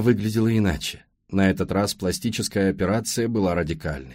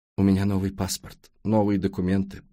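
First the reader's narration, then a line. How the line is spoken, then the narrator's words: Sobbing mumble. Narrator (Russian): пробормотала она, всхлипывая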